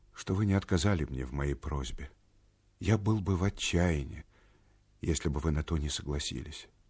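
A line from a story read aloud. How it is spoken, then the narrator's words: Quiet, sad voice. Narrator (Russian): сказал он и тихим, и печальным голосом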